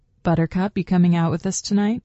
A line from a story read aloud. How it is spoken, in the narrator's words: Stefan asked